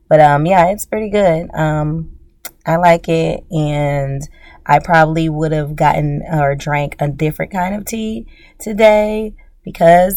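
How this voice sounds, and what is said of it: Raspy voice. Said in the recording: “my voice is a little bit more raspy than usual ... helping not be congested”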